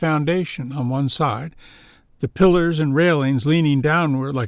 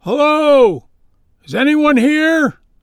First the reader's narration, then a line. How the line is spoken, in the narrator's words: yelled